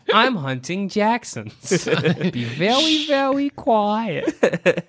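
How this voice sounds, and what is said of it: Elmer Fudd cartoon voice impression. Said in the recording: “an Elmer Fudd impression”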